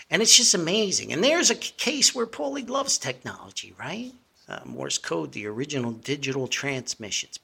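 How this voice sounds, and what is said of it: New Jersey accent. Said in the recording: “my actual horrible New Jersey accent”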